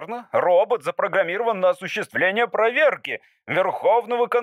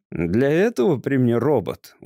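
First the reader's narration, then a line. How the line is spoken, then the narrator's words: Glum. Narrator (Russian): уныло вставил Настыч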